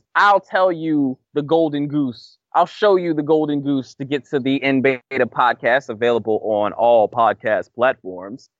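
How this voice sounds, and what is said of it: Imitates another person's voice. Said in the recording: “That was my best purple face impression.”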